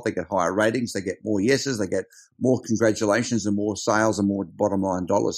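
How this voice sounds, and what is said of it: Strong Australian accent. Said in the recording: “He's a very Australian, as you'll hear from the accent”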